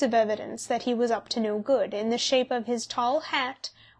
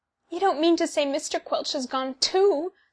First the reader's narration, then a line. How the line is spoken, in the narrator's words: sobbed Mrs